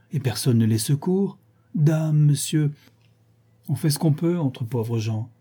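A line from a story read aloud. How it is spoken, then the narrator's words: Exclaiming. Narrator (French): s'écria Rodolphe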